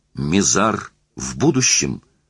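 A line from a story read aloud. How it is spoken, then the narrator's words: Exclamation. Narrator (Russian): воскликнул Эллен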